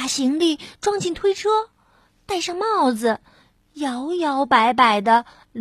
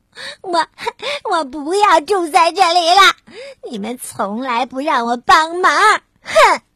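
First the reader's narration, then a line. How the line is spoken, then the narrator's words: Sobbing. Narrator (Chinese): 鸭子哭哭啼啼的说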